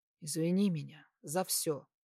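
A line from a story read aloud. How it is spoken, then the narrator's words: Quiet plea. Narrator (Russian): тихо попросил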